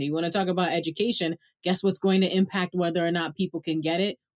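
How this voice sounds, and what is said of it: Brooklyn accent. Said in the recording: “I'm a Brooklynite ... if they don't hear in my accent”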